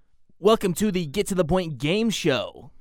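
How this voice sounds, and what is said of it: Game show host voice. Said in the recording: “game show voice? ... That sounds like more like Jake Fire. ... It's my game show voice.”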